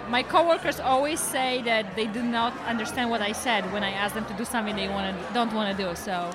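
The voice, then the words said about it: Polish-accented English. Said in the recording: “your accent is, I love it. I think it's great”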